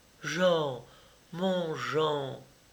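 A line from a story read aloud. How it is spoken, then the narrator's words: Trembling, chilled plea. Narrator (French): tremblant, glacé, je supplie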